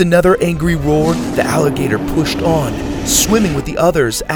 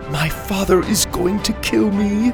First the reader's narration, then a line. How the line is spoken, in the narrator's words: Mora moaned, cringing with every scraping sound